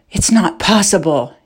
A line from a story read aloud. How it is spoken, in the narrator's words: he gasped